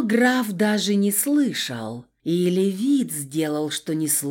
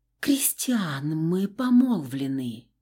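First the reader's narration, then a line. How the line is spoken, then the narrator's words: Whisper. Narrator (Russian): Прошептала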